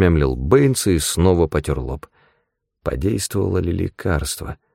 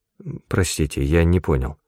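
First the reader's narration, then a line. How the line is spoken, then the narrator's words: Mumbling. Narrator (Russian): пробормотал Бэйнс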